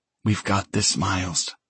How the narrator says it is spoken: she whispers against my ear

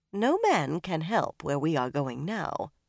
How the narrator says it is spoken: Varen said dryly

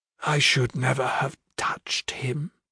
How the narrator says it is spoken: said softly

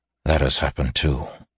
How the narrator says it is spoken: he said softly

